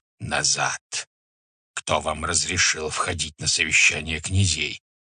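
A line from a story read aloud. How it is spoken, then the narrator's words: Hiss. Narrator (Russian): Субудай-богатур зашипел на них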